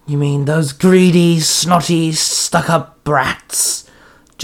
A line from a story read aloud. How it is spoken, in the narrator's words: Jack Frost sneered